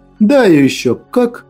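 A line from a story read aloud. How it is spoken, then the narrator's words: Laughing reassurance. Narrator (Russian): Смеясь, заверил я ее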